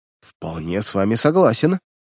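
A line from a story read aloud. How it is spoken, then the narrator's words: Muttering, stout man. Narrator (Russian): пробормотал толстяк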